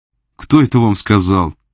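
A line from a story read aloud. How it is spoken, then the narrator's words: Laughing. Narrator (Russian): Женщина засмеялась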